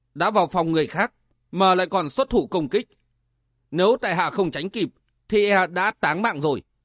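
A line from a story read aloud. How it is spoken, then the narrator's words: Cold laugh while speaking. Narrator (Vietnamese): Vân Giật Long cười lạnh lùng nói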